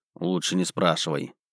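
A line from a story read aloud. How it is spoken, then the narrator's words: Grumbling mutter. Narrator (Russian): буркнул я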